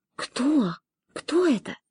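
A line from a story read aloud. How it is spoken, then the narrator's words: Trembling whisper. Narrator (Russian): Флора у меня за спиной вдруг вся затряслась и прошептала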